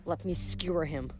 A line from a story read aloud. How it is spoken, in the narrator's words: Hazel muttered